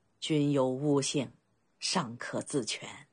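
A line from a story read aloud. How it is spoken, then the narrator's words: Low laughing voice. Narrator (Chinese): 甘茂低声笑道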